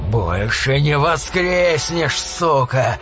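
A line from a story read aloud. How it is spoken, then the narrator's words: Growling werewolf. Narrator (Russian): прорычал оборотень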